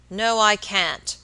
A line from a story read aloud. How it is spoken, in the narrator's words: answered the baker, growing very red in the face, and speaking in an unnecessarily loud voice